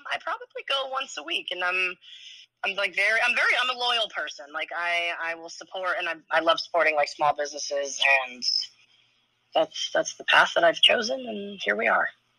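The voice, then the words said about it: Hoarse, worn-out voice. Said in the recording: “My voice is shot ... Why was your voice be shot? ... you really should stop yelling and shouting”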